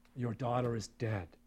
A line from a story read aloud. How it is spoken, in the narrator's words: he said